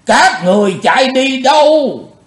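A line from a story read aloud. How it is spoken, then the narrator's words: Loud roar. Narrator (Vietnamese): Bạch Phát Ma Cơ gầm to lên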